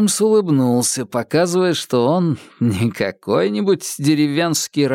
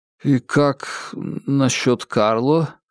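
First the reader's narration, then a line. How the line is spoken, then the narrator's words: Quiet question. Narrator (Russian): спросил он тихо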